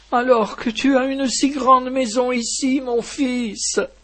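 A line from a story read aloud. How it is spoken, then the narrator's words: Sobbing. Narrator (French): sanglotait-elle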